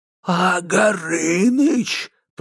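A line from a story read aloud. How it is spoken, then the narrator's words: Creaky wood-spirit voice. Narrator (Russian): проскрипел леший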